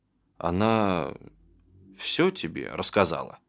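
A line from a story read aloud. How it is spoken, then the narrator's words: Old man's quiet question. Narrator (Russian): тихо спросил дед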